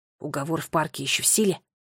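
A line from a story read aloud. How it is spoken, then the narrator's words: Whisper. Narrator (Russian): прошептал он Ноле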